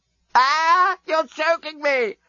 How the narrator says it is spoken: screamed Scraliontis

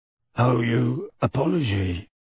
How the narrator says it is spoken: grunted a voice from the middle of the smelly cloud

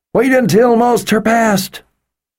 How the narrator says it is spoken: she called out, just loud enough for them to hear, but not so loud that those following could hear

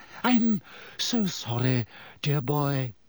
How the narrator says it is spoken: she said dreamily

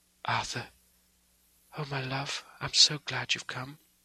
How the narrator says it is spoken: whispered softly

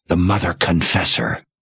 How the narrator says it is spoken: Sebastian whispered, transfixed by the sight of her

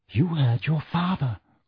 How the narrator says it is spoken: whispered Mrs

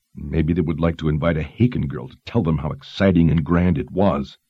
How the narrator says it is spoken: Dalton snapped

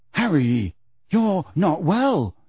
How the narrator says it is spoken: he said shakily

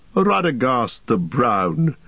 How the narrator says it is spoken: laughed Saruman, and he no longer concealed his scorn

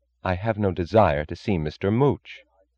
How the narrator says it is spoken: she said

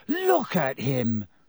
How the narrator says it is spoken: he said furiously to Hermione

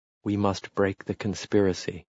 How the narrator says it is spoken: he said fiercely

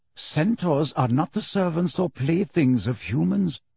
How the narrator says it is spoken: said Ferenczi quietly

